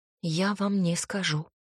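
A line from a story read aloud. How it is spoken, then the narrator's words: Weak whisper. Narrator (Russian): слабо прошептала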